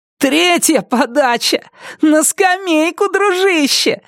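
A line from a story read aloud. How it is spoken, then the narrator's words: Yelling, then laughing. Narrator (Russian): заорал Брайан и расхохотался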